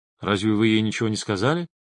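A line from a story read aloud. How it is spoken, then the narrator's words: Plain. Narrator (Russian): спросил медсестру Рид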